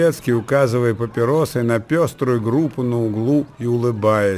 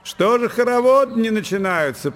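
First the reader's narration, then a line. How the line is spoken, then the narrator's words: Shouting. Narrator (Russian): прокричал Белецкий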